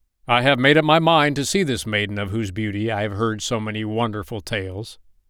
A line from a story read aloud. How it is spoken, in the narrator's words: he cried